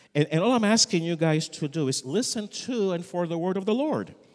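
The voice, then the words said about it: Unfamiliar foreign accent. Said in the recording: “the guy with a strange accent”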